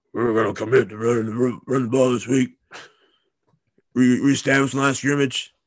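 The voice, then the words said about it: Imitates another person's voice. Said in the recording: “worst Coach O impression I've ever heard.”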